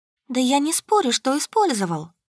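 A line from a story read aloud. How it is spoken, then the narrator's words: Sad sigh. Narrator (Russian): грустно вздохнула Тина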